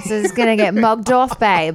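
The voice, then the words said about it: Put-on British accent. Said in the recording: “Again, my accents.”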